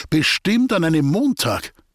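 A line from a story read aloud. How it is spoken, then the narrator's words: Called out at last. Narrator (German): rief endlich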